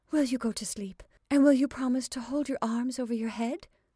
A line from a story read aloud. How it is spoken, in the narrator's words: she said breathlessly